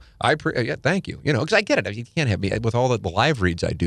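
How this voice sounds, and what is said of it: Usual voice. Nothing is said of it.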